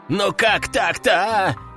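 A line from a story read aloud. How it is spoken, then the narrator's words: Exasperated demon's exclamation. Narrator (Russian): в сердцах воскликнул другой бес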